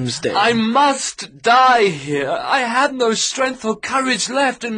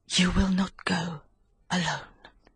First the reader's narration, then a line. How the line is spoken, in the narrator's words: she answered, whispering